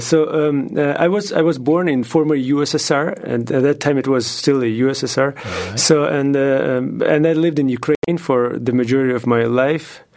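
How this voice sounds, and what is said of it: Non-native English accent. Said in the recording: “your English is remarkably good ... With an accent.”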